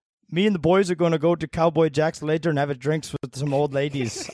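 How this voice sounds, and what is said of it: Bad attempt at Irish accent. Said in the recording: “Let's do the Irish accent ... Oh, it's going to be so bad”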